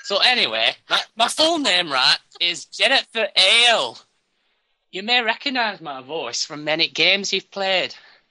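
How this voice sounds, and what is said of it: Put-on northern English accent, dropped H's. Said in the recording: “impersonating ... my accent, because I'm from the north, I don't say my H's very well”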